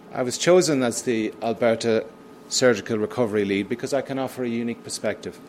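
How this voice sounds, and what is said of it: British accent. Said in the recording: “my accent is a giveaway, in the United Kingdom”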